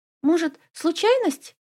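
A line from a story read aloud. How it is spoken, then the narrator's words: Woman squeaking. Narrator (Russian): пискнула одна из женщин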